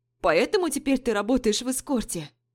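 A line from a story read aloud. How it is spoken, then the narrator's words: Exclamation. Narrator (Russian): воскликнула Нина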